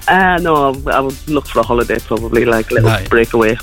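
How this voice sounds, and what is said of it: Geordie accent. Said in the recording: “I love your accent. ... I could hear the Geordie there.”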